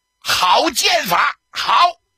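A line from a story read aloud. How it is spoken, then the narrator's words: Spontaneous shout. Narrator (Chinese): 贺龙不由自主的喊了一声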